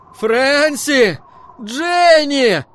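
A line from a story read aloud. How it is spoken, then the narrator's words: Yelling through cupped hands. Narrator (Russian): сложил руки рупором и завопил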